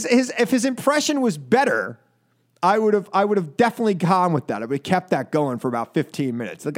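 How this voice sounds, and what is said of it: Usual voice. Nothing is said of it.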